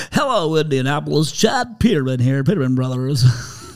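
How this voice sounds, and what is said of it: Imitated high-energy radio commercial voice. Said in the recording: “Do I sound just like you? ... radio voice on ... you got your radio voice on”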